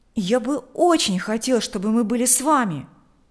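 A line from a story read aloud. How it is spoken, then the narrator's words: Exclaiming. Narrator (Russian): воскликнул Миша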